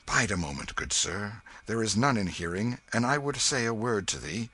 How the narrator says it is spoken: Hendon laid his hand upon his arm and said in a low voice

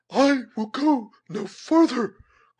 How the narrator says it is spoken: cried Cora

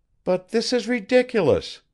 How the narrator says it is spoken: she exclaimed

